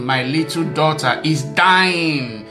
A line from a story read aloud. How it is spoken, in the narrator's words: he said